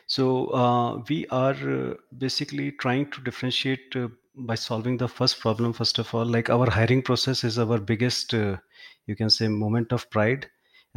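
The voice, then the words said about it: Indian-accented English. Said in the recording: “as we have an Indian accent”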